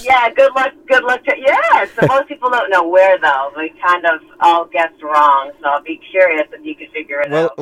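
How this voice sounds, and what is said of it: Mixed East Coast American accent. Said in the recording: “Am I picking up an accent from somewhere? Are you from the East Coast? ... it sounds to me like maybe Jersey ... Maine ... my mother and father are from the Boston area, so I have a mix of accents going on”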